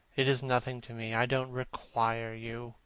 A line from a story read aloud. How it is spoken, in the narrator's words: said Campbell coldly